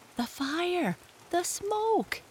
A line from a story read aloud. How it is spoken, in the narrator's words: gasped Jesse